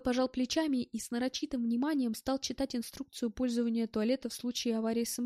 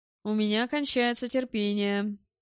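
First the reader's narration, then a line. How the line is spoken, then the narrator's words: Guttural growl. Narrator (Russian): с каким-то утробным рычанием произнес Белл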